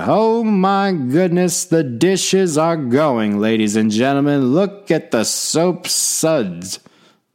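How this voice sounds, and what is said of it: Howard Cosell sportscaster impression. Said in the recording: “I could do a Howard Cosell impersonation for the entire time ... my Howard Cosell impersonation ... My wife hates my Howard Cosell impersonation.”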